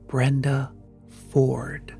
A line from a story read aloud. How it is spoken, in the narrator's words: out of the darkness beside me came the whisper